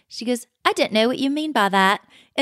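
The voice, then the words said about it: Imitation of Sutton's accent. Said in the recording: “now I'm doing Sutton's accent.”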